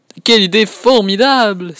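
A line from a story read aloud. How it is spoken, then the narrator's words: Father exclaiming excitedly. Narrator (French): s'écrie son papa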